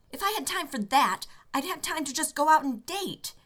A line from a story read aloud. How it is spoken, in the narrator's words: Rodney had snapped over the crackly phone line